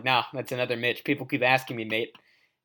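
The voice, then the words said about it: Bad put-on Australian accent. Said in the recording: “your Australian accent is terrible ... because you're doing it”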